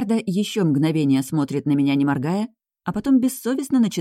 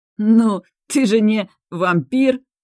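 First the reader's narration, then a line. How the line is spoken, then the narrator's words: Forced out through laughter. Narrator (Russian): выдавливает сквозь смех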